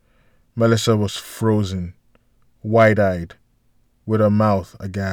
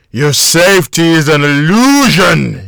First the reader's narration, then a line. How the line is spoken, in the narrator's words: he screamed as he was dragged out of the room